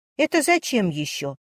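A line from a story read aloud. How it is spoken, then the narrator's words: Angry question. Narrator (Russian): сердито спросила Варя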